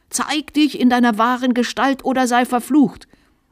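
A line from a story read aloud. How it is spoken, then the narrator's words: Shrill high-pitched scream. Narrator (German): schrie der Bischof in gellendem Diskant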